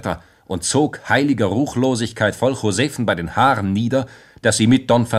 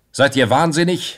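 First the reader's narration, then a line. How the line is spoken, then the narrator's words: Young man's call. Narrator (German): rief der Jüngling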